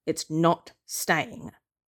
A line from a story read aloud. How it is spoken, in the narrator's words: Yaga's voice booms